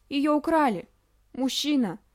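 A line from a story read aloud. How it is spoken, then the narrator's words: Hoarse wheezing puppy. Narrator (Russian): прохрипел щенок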